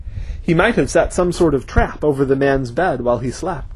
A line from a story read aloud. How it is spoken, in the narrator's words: said Gar